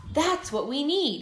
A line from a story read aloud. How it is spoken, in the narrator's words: he cried